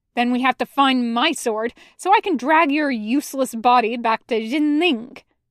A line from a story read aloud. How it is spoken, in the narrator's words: Zhang Zheng snaps